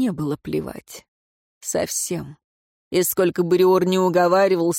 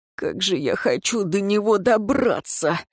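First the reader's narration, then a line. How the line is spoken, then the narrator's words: Moaning. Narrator (Russian): простонал Риор и оборвал себя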